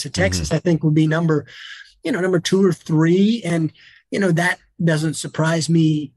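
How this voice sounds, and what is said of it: Slight Southern US accent. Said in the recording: “I'm from the South and you might detect a slight accent ... I've always had a touch of an accent”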